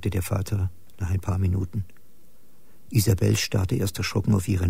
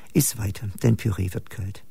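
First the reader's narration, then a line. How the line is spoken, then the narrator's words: Tense smiling voice. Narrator (German): sagte sie, lächelte verkrampft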